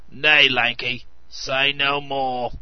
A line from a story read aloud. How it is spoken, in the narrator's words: growled the old man